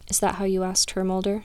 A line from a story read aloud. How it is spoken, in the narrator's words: asked softly